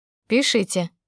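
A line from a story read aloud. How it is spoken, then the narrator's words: Curt, dry receptionist. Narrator (Russian): бросила регистраторша сухо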